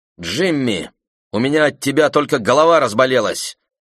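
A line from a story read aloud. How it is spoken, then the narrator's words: Snapping bark. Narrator (Russian): рявкнула змеючка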